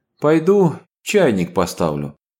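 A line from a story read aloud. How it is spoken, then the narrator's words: Sighed. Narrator (Russian): вздохнула миссис Смит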